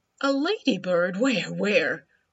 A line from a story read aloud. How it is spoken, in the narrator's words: The crow laughed